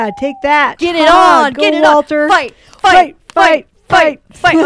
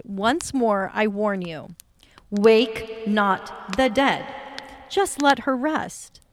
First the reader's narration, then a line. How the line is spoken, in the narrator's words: the sorcerer, who seemed unalarmed by the threat, calmly said